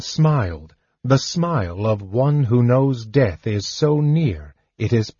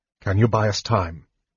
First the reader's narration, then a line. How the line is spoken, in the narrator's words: Tanis asked